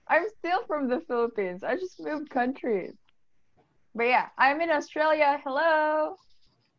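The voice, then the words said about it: Filipino accent. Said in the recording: “I'm from the Philippines. was from the Philippines ... So you can tell by her accent.”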